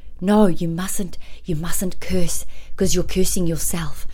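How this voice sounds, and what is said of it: Put-on South African accent. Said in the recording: “Sorry, South African accent, but that's how she sounds.”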